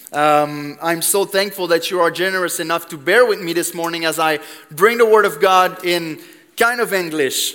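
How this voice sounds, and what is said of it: Quebec French accent in English. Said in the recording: “I'm from Quebec. I don't know if you noticed the accent a little bit.”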